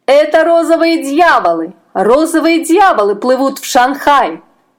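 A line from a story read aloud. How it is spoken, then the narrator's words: Shrill warning shouts. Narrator (Russian): закричали лодочники пронзительными голосами, предупреждая моряков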